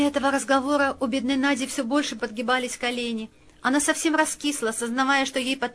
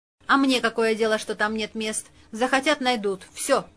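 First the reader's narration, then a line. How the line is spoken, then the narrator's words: Decisive tone. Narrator (Russian): решительным тоном заявил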